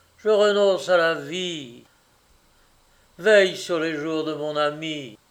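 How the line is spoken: Exclamation. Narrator (French): s'écria-t-il

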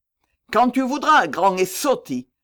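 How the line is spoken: Shouted. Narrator (French): lui criai-je

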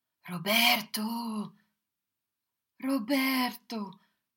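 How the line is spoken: Pleading. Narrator (French): suppliai-je

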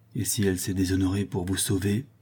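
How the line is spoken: Said quietly. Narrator (French): lui dit tout bas Rodolphe

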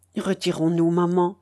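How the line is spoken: Low worried voice. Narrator (French): fit à voix basse Dounia inquiète

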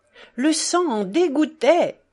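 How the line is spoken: Distressed, horrified exclamation. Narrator (French): s'exclama Fénia, imaginant dans son trouble cette affreuse circonstance

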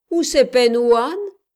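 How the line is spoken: Mocking sneer. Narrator (French): ricana un nègre moqueur

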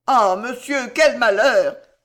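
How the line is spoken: Exclaiming. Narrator (French): s'écria Landry

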